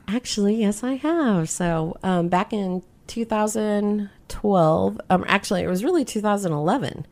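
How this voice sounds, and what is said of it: Smooth radio-style voice. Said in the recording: “you have a radio voice.”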